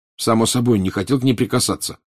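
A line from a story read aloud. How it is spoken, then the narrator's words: Angry. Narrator (Russian): сердито сказал Гарри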